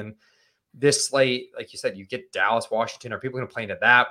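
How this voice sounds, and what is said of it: Strong Northeastern US accent. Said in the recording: “George says my accent is wild ... Northeast”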